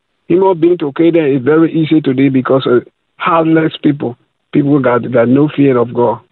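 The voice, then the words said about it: West African English accent. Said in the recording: “where's your accent from? ... I'm from Liberia, West Africa. ... that Nigerian accent”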